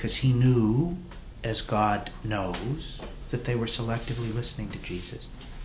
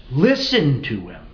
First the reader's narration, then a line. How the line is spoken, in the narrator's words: God the Father of so few words, who only speaks 3 times in the entire New Testament, thunders from above